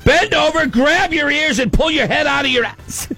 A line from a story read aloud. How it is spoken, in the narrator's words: my dad would yell from the stands